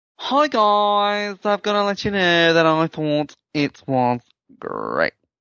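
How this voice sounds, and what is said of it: Camp, flamboyant put-on voice. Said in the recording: “do it in a camp voice.”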